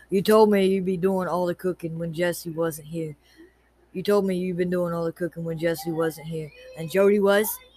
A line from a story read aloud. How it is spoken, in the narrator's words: said flatly